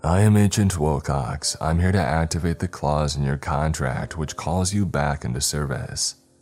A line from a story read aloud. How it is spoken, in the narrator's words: Wilcox said in an insanely calm voice